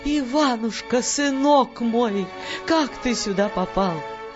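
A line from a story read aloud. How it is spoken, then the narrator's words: Cry of surprise, woman. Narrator (Russian): вскрикнула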